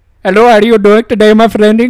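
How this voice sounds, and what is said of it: Put-on Indian accent. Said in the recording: “impersonate them ... Indian accent ... the Indian accent”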